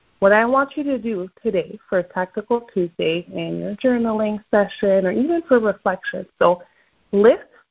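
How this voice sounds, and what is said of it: French-Canadian Quebec accent. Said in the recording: “my French-Canadian accent from Quebec ... my natural accent”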